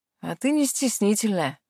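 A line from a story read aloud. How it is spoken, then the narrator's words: Amused snort. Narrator (Russian): хмыкнул он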